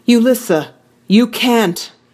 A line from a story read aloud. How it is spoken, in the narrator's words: Gia cried